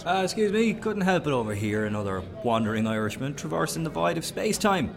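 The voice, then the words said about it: Southeast Irish accent. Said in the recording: “What accent is that? East? Southeast? Waterford.”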